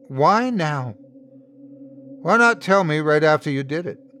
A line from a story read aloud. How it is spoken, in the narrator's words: I could hear her crying now, but her voice was steady when she answered